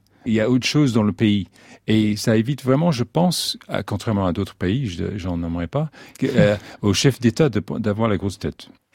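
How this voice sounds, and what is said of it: British accent speaking French. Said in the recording (French): “C'est charmant cet accent ... un grand Breton qui parle français”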